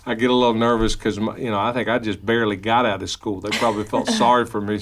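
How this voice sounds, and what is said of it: Kentucky accent. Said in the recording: “your Kentucky accent”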